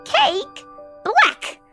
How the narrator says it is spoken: Willa would shout

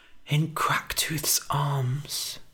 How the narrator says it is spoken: whispered Biddy

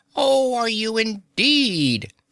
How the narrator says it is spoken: exclaimed the squirrel

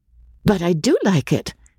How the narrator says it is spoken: said Kim in her clear, decisive voice

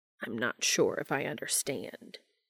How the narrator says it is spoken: he rasped

